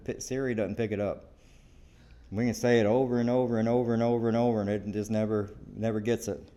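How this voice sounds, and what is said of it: Southern drawl. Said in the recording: “my southern drawl ... Our drawl or whatever it is that we have”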